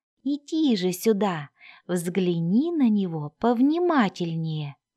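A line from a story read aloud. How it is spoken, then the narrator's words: Ingratiating suggestion. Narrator (Russian): вкрадчивым голосом предложил Хафлинг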